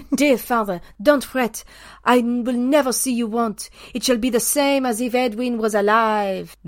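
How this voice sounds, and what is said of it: Put-on French accent. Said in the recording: “I'll do it in a French accent.”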